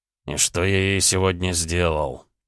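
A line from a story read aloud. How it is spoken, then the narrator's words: Groaning. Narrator (Russian): простонал Гаранин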